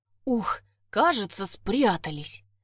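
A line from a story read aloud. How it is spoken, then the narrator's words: Relieved exhale. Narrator (Russian): С облегчением выдохнул Владик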